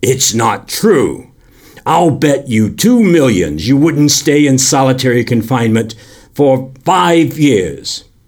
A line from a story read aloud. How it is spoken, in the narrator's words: shouted at the young men